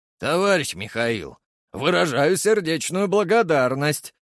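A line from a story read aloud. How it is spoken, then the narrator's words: Barked. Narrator (Russian): рявкнул он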